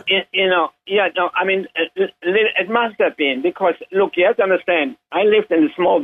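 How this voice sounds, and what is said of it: German accent. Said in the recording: “You were born in Germany. I think people may pick up on that from your accent.”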